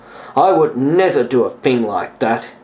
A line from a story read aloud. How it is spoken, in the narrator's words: he said bitterly